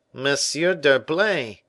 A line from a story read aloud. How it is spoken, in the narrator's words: cried the tailor